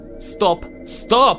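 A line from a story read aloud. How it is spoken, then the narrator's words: Female shout. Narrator (Russian): закричала она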